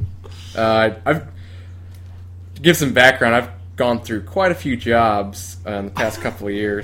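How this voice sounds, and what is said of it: Usual voice. Nothing is said of it.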